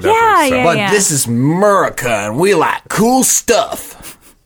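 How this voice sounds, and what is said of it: Put-on American Southern accent. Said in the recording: “a Southern accent to represent America”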